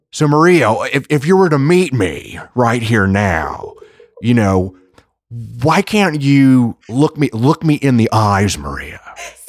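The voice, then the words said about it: Nicolas Cage impression. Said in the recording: “do a solid Nick Cage impression”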